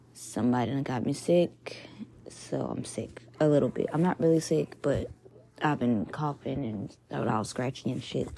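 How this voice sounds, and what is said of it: Slightly raspy voice. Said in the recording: “I sound a little raspy. ... if I sound a little raspy”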